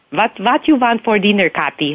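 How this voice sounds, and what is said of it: Imitated Russian-accented English. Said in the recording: “the Russian accent ... making fun of my parents ... don't make fun of my accent”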